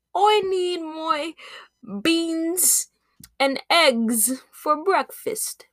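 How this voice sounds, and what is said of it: Unpracticed put-on British accent. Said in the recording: “me trying to do a British accent ... my British, I haven't been practicing my British accent. I need to practice it more.”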